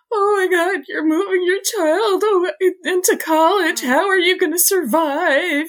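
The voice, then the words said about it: Imitates a TV character's voice. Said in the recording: “that's one of your best Laura Petrie uh, impersonations”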